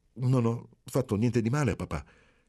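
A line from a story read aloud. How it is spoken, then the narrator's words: Stammered. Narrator (Italian): balbettò Marcello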